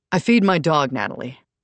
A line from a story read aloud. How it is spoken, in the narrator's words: Nick answered in a clipped tone